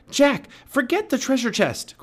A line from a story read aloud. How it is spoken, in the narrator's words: cried Annie